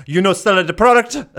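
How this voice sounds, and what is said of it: Poor put-on Jamaican accent. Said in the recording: “I have a terrible Jamaican accent... yes, you do.”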